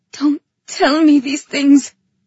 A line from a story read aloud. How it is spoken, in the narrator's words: I whimpered